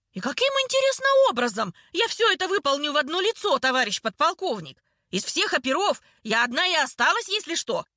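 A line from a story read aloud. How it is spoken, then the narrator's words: Yelling. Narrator (Russian): Орала лобовому стеклу Ольхова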